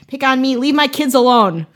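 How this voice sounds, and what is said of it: Put-on Wisconsin accent. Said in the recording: “it's in like a Wisconsin accent”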